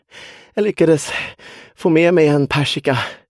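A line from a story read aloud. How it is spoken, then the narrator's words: Breathless, panting. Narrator (Swedish): sa Alba och hämtade flämtande andan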